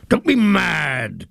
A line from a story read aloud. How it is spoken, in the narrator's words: cried Potiphar scornfully